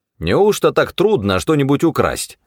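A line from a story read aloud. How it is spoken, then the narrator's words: Defiant woman's shout. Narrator (Russian): вызывающе крикнула Мэри паромщица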